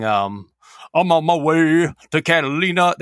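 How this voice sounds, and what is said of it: Grungy singing imitation of a singer. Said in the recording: “I know I'm making him sound grungy. I'm sorry, I suck at doing my Danzig impression”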